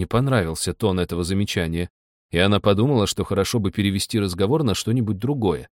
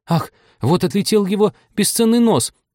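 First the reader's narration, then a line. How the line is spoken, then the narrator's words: Alarmed shriek. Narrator (Russian): взвизгнула, когда большая тарелка чуть не задела младенца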